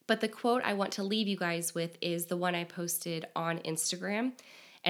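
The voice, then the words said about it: Strained, failing voice. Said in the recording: “I feel like my voice is about to go out at any minute.”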